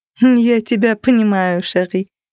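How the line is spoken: Laughing. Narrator (Russian): рассмеялась она

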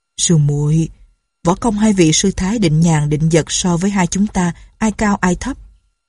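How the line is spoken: Sighing. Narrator (Vietnamese): Nhạc Bất Quần thở dài nói

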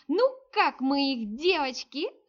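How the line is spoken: Squeezed out through laughter. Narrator (Russian): сквозь смех выдавила

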